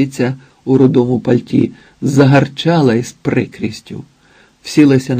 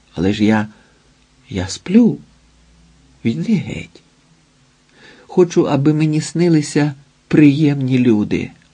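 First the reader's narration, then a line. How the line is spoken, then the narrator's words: Whispering. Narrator (Ukrainian): Прошепотів Ілія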